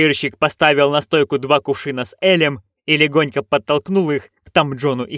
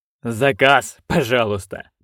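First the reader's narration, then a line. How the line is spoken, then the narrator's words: Sarcastic sneer. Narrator (Russian): проговорил он, язвительно скалясь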